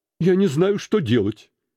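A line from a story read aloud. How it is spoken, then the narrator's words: Exclaiming, laughing and crying. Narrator (Russian): воскликнул Скрудж, смеясь и плача в одно и то же время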